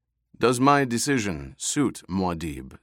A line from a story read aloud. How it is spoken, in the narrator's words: Stilgar asked